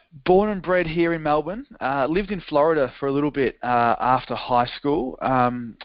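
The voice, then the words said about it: Australian accent. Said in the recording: “an Australian accent ... that great accent”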